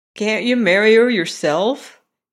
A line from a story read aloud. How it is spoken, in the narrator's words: inquired His Majesty, laughing